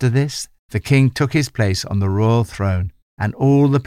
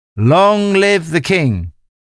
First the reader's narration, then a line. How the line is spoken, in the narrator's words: the people clapped their hands and shouted